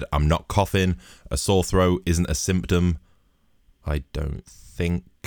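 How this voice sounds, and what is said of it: Hoarse, sore-throated voice. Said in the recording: “forgive my voice. I have a throat like fucking thunder ... I've just got a horrible throat”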